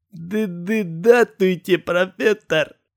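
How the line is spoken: Hoarse stammering mumble. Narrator (Russian): то ли промычал, то ли прохрипел Архип

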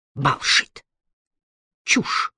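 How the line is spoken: Sharp retort. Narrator (Russian): резко бросил Тувумба

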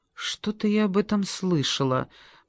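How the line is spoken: Muttered. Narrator (Russian): пробормотала я

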